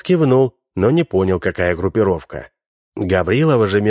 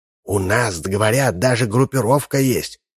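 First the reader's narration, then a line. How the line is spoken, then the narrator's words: Whispered. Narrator (Russian): прошептала Гаврилова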